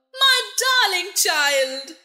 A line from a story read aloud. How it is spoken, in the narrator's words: she cried